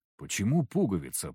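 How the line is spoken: Mumbled. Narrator (Russian): пробормотал я

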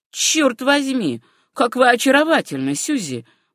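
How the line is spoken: Exclaiming. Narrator (Russian): воскликнул он

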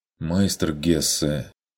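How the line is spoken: Dejected low voice. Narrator (Russian): упавшим голосом проронил Хагнер

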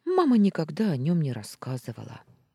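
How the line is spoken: Sighing. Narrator (Russian): вздохнула я

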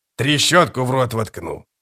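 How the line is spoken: Grumbled. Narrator (Russian): проворчал скрипач

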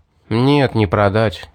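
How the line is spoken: Sigh. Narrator (Russian): вздохнул я

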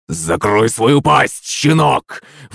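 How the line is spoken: Sudden snarl. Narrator (Russian): внезапно зарычал батя

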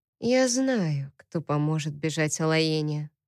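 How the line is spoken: Quiet. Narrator (Russian): тихо сказала она

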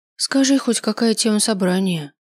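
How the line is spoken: Sighing. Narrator (Russian): вздохнула я

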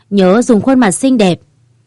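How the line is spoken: Slow, smiling. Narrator (Vietnamese): Quan Hề chậm rãi mỉm cười rồi nói

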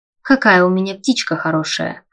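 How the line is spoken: Short laugh. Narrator (Russian): хохотнул он

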